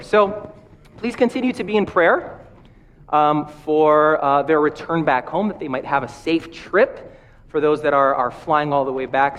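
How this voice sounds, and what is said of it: Slightly rough, strained voice. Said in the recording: “my voice is a little bit quirky ... my throat is still what's giving me problems. So I might cough”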